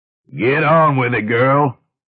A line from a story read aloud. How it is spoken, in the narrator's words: grunted Medjim Nabellan of Theta